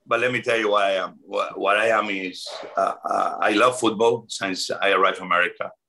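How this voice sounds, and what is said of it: Foreign-accented English. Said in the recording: “I'm a Washingtonian with an accent.”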